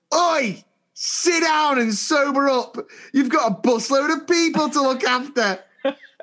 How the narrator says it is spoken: shouted

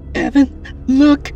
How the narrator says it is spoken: Katrina cried

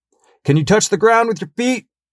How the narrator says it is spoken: yelled back

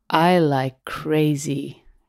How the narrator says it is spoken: she slurred

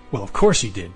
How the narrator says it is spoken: Max snapped at himself

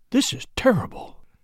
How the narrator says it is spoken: he said in a low voice

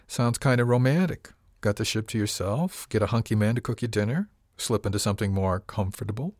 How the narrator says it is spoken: She giggled

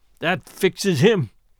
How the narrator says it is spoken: I heard Charlie mutter

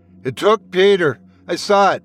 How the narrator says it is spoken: Trevor said, his voice trembling with fear

